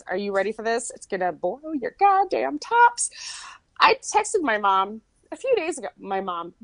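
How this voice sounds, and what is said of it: Strong Michigan accent. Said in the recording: “That Michigan accent? ... Oh, it came out real strong. ... So strong.”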